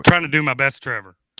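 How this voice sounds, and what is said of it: Spot-on impression of a co-host. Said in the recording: “great Trevor impression. You're spot on.”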